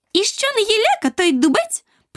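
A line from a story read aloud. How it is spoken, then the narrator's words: Squeaky voice. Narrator (Ukrainian): пропищала стокротка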